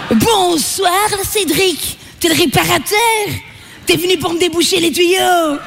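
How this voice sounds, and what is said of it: Belgian French accent. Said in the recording (French): “je viens de Belgique, ça s'entend pas trop, là. ... L'accent belge est pas sexy.”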